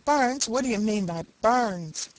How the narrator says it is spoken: Old Mother Nature laughed

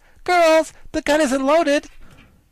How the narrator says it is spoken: she turned to her army and cried

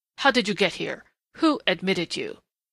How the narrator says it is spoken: he snarled in a sudden snapping of restraint

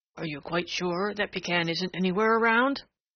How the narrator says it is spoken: asked Prickly Porky, and his voice still shook

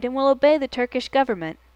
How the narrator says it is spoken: he cried

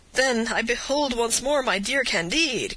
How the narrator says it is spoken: cried Pangloss

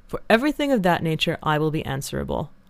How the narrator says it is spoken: said Tom in a decided tone

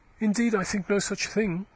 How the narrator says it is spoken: she said haughtily

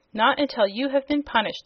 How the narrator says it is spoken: exclaimed the Boolooroo sternly

